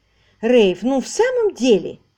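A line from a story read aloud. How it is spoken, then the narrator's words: Exclamation. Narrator (Russian): воскликнула Алисия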